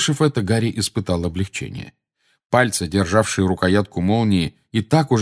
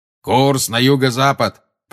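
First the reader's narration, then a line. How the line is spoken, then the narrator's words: Thundering. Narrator (Russian): прогремел Грюм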